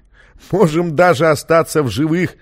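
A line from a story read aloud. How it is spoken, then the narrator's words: Laughing. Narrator (Russian): засмеялся музыкант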